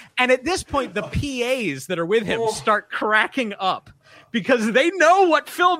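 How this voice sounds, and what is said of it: Usual voice. Nothing is said of it.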